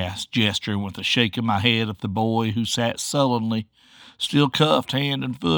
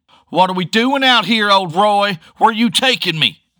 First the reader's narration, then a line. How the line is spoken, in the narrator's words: the kid bellowed